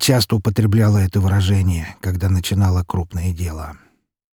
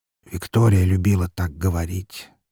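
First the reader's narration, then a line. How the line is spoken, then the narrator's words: Quiet. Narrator (Russian): негромко произнес он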